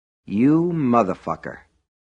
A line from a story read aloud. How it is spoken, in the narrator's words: the Mellow Tiger's owner and operator said in a soft, reflective voice